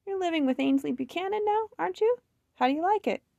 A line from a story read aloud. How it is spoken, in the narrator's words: Hattie laughed